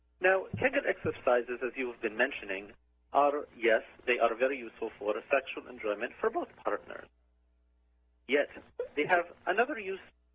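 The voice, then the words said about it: Put-on Lithuanian accent. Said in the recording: “You have such an interesting accent... Lithuania.”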